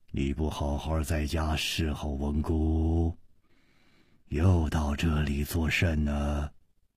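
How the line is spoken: Deep commanding voice. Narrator (Chinese): 这个声音 低沉之中隐隐有微，一听那就知道是惯于发号施令的人

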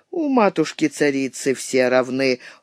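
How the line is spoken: Cold remark. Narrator (Russian): холодно заметила она

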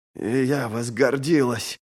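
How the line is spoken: Hoarse rasp. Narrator (Russian): прохрипела

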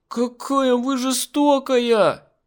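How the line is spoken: Girl wailing. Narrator (Russian): завопила девочка

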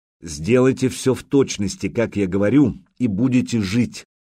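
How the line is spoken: Plain. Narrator (Russian): сказал Духарев

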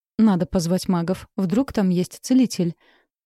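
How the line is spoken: Weak babbling. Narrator (Russian): Слабо пролепетала я

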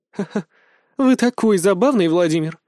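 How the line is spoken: Laughing old woman. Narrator (Russian): рассмеялась бабуля

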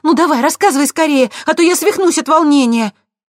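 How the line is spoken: Exclaimed. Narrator (Russian): воскликнула

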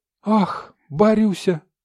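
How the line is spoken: Exclaiming. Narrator (Russian): воскликнула спутница

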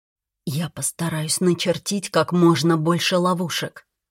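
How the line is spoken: Barely audible assurance. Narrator (Russian): едва слышно заверил Риган

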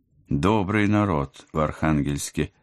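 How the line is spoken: Slightly envious sigh. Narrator (Russian): с легкой завистью вздохнула я

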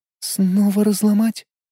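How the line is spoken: Quiet. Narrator (Russian): тихо произнесла Лиза

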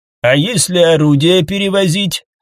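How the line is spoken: Plain. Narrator (Russian): спросила Демендес

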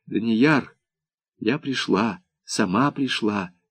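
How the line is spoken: Quiet. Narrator (Russian): тихо сказала она

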